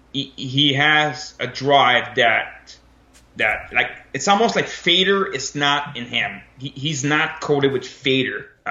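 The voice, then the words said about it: French accent. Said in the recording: “The French accent occasionally”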